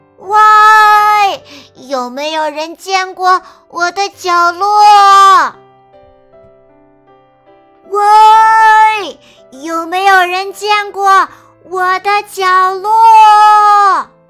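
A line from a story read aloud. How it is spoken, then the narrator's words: Shout carrying far. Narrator (Chinese): 吼声穿过整个旷野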